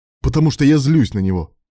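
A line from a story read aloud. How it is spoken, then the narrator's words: Barked. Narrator (Russian): рявкнул Илья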